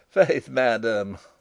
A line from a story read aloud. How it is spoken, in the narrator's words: laughed Rupert